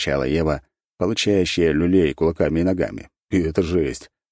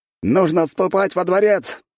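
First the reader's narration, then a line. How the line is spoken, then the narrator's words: Shout. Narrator (Russian): выкрикнул капитан стражи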